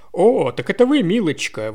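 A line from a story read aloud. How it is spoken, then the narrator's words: Exclaiming. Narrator (Russian): воскликнул мистер Коуэн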